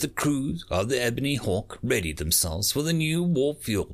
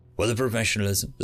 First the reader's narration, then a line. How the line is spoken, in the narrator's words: the sentry operator replied in a neutral voice